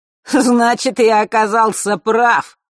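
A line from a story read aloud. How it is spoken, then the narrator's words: Shout. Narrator (Russian): крикнул он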